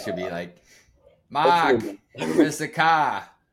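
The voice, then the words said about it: Put-on New England accent. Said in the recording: “Do you think you'll have a New England accent after a couple of years?”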